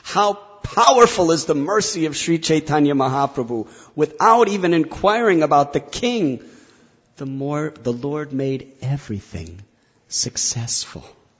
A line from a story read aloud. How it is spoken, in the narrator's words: Kaviraj Goswami exclaims